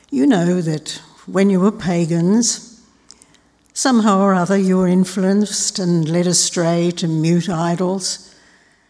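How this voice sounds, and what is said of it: Raspy, hoarse voice. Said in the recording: “my rather raspy presentation this morning”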